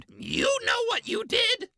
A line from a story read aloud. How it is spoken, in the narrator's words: A woman screamed